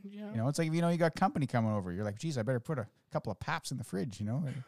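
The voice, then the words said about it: Don Cherry impression accent. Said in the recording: “I said it in a Don Cherry accent”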